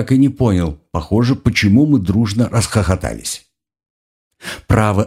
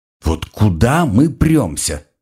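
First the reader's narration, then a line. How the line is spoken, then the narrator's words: Yawning grumble. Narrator (Russian): ворчал зевая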